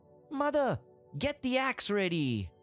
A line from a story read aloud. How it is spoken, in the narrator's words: He shouted